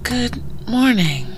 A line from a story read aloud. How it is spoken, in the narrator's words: Eleanor said in a sleepy voice